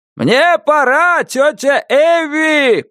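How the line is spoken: Shouting. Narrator (Russian): прокричал Джордж Мира

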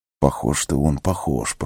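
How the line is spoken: Whisper. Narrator (Russian): прошептал Гимли

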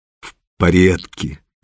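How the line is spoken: Through gritted teeth. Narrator (Russian): сквозь зубы ответил он

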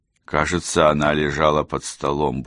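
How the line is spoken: Grumbling mutter. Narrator (Russian): буркнул Сэм

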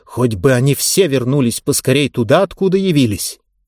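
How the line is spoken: Very sharp. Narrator (Russian): очень резко добавила

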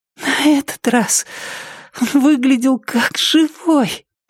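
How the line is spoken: Hoarse wheeze. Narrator (Russian): просипела она

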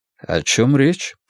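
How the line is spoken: Calm. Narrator (Russian): спокойно произнес я

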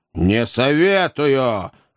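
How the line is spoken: Menacing. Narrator (Russian): отозвался дядя, грозно

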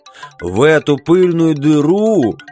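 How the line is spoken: Hoarse yell. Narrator (Russian): хрипло заорал Билли

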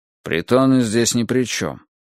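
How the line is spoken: Grumbling. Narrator (Russian): проворчал Домилола

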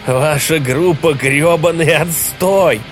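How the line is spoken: Shouting, then maniacal laughter. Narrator (Russian): Снова прокричал он и рассмеялся, словно сумасшедший

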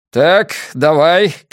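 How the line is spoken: Shouted. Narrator (Russian): крикнул Фрэнк

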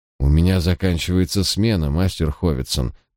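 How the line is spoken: Surprisingly low, young man. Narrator (Russian): произнес молодой человек на удивление низким голосом

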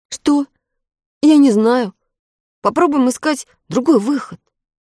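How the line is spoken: Uncertain. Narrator (Russian): неуверенно ответил мальчик

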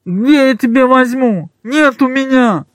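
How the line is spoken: Nasal, barely intelligible reply. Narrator (Russian): Гнусава еле разборчиво ответил ему замотанный

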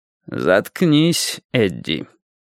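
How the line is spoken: Said through teeth. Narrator (Russian): Лейн процедить

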